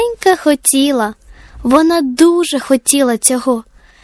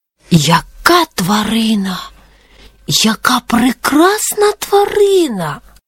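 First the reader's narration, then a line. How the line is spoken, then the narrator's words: Whispered. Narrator (Ukrainian): прошепотіла сова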